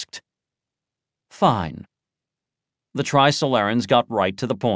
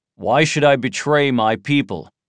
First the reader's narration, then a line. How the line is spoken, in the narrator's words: He asked coldly